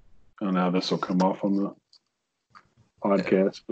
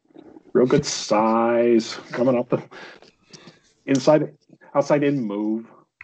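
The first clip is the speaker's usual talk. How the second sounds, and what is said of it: Impression of Kuiper. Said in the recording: “my Kuiper impression”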